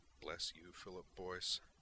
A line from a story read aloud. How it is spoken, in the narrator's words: Griffin murmured